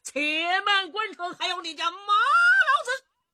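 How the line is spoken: Shouted. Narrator (Chinese): 马武这一喊

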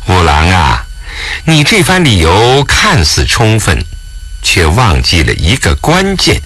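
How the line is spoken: Cold sneer. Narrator (Chinese): 武则天冷笑道

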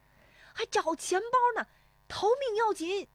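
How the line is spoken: Shouting while running. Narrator (Chinese): 石丽华边奔边喊

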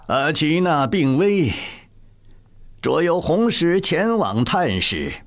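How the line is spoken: Flat, expressionless. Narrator (Chinese): 高无用脸上毫无表情，淡淡说道

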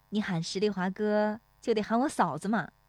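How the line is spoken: Cheerful, smiling. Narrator (Chinese): 乔红梅 笑盈盈地说

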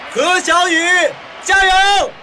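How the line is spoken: Loud shout. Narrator (Chinese): 刘小飞高喊出来

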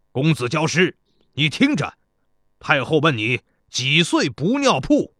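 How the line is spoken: Loud. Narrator (Chinese): 田国高声对城上的贾公子说

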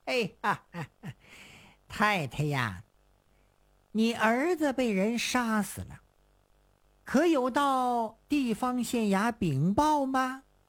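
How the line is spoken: Calm, grinning question. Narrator (Chinese): 他立刻冷静下来，笑嘻嘻地问

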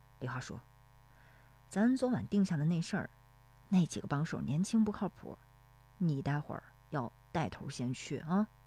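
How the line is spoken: Low voice. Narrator (Chinese): 石有福低声说

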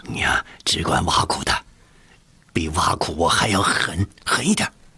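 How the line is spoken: Whisper. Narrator (Chinese): 乐敏 悄声地说

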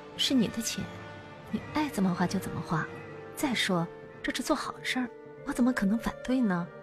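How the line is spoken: Whispering. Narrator (Chinese): 刘仁看轻声朝严慧英耳语了几句

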